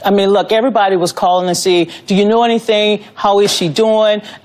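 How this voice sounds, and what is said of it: Southern Louisiana accent. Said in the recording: “She's got kind of a cool accent. ... That's southern, like Louisiana kind of thing.”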